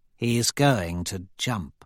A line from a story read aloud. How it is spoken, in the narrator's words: Aja says quietly to Cassius